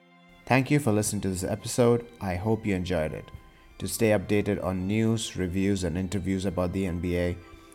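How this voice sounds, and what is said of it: Indian English accent. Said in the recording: “the largest NBA podcast in an Indian accent”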